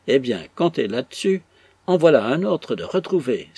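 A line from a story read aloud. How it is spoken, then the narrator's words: Exclaiming. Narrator (French): s'écria le capitaine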